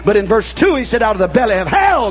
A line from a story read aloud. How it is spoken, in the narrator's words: cried I